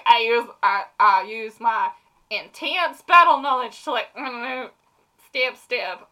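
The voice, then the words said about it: Bad put-on accent. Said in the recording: “What? I don't even know what that accent was. That was bad.”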